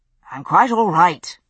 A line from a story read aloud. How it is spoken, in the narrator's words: said irritably